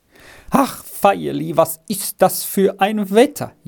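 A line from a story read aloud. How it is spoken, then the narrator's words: Mother wailing. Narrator (German): jammerte die Mutter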